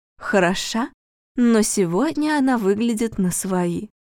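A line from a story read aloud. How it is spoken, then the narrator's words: Hushed, secretive. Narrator (Russian): Роза Афонина, тихонько, чтобы никто не слышал, сказала своей приятельнице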